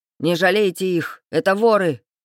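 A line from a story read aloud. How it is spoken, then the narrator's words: Teacher shouting. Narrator (Russian): крикнул кто-то из преподавателей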